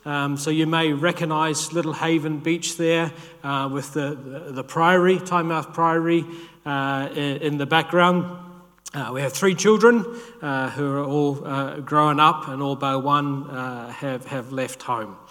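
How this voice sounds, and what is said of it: New Zealand accent. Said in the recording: “You may guess from my accent, as someone was doing this morning, that I'm not from the UK ... our roots in New Zealand”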